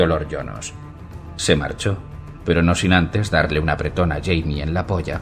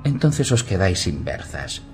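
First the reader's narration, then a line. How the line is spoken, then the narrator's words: Mischievous young woman replying. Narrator (Spanish): replicó la joven con tono travieso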